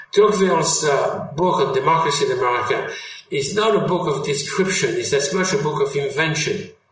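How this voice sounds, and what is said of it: French accent. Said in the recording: “I always kept my French accent”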